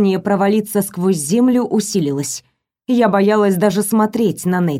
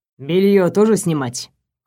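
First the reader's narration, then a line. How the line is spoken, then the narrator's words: Cold question. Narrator (Russian): холодно поинтересовался он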